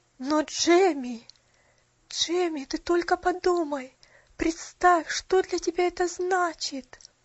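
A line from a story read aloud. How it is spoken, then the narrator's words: Trembling voice. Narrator (Russian): Дрожащим голосом произнесла миссис Мёрфи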